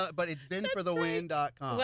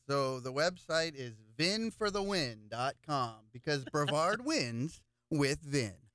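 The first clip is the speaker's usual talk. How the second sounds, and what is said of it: Announcer-style radio voice. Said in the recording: “that was my little radio voice there”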